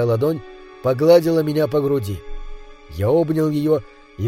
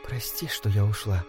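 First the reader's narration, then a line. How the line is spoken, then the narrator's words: Whisper. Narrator (Russian): Она прошептала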